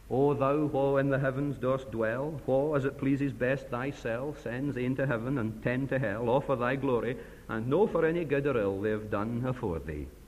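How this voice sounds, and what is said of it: Imperfect put-on Ayrshire Scots accent. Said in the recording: “I apologize for my accent, it's not up to the Ayrshire standard”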